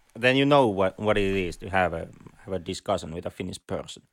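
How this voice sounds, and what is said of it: Strong Finnish accent in English. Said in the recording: “we both have the luxurious Finnish rally accent. So, you know, enjoy the butchering of the entire English language ... We have a rally accent. At least ... has.”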